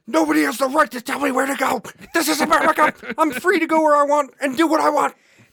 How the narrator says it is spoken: Richard then started screaming

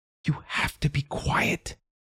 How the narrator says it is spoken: whispered

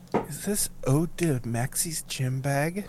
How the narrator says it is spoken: very quietly goes

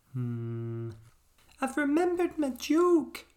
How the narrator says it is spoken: squeaked Pickle suddenly

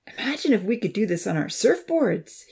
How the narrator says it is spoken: he panted eagerly

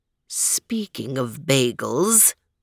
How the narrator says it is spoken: purred the cat

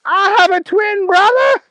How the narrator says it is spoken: Booger screamed

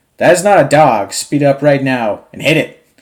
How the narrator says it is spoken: Travis starts yelling back over the radio

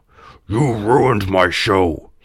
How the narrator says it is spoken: he growled

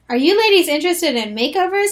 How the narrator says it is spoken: a male voice asked cheerfully

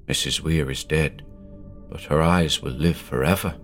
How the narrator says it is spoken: said softly

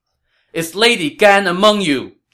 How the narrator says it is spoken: Zhao Yun shouted

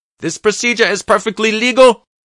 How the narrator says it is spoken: the physician shouted

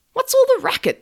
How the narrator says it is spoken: Cindy cried

